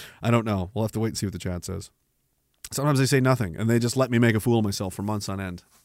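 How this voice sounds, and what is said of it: Usual voice. Nothing is said of it.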